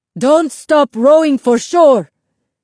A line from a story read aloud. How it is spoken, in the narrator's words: Isabel's grandfather yelled to everyone else